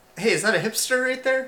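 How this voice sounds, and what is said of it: Impression of a Portland tourist. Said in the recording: “my impression of someone in who's in Portland and they're walking”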